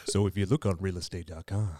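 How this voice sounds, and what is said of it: Deep, smooth, low-pitched voice. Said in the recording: “my phone voice ... Now you're Barry White.”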